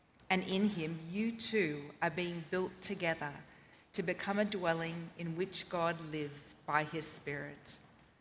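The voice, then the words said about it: Australian accent. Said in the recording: “read in an Australian accent”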